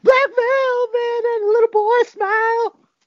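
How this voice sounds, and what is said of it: Singing in falsetto. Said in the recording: “a fantastic falsetto”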